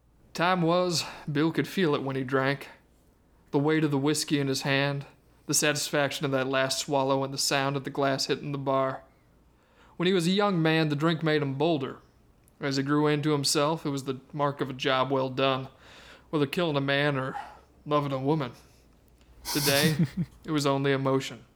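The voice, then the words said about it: Put-on accents reading a Western. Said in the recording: “accents not as good as Eric's”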